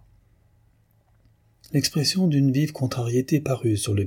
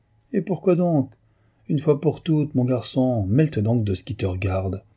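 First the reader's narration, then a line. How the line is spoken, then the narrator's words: Harsh retort. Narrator (French): répliqua durement M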